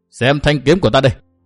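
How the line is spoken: Shouting. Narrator (Vietnamese): Nguyên Bình hét

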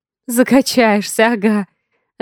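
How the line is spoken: Laughing. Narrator (Russian): Рассмеялась я

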